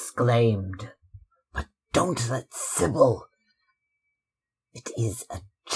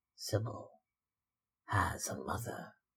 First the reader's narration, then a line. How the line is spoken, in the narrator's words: she murmured